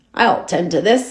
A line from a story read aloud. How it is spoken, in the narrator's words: chuckled